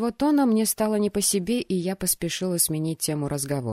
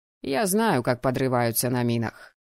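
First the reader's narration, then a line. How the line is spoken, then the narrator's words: Dry and calm. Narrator (Russian): сообщил Рубик сухо и спокойно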